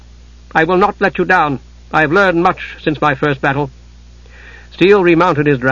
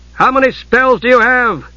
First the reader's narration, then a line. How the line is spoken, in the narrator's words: Steele asked, shouting over the rush of wind in their ears